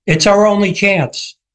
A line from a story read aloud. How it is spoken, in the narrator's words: shouts back